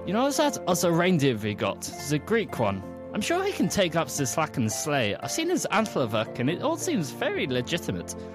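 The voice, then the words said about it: Put-on German accent. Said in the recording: “braced herself for a cracking German accent ... Like the accents, guys. It's awesome.”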